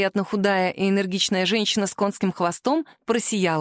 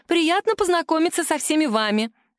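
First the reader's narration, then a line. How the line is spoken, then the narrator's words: Cheerful chirping. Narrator (Russian): радостно щебетала женщина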